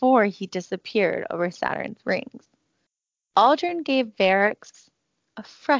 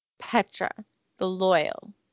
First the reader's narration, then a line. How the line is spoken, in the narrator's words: he sneered